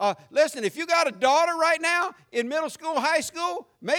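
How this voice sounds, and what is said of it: Usual voice. Nothing is said of it.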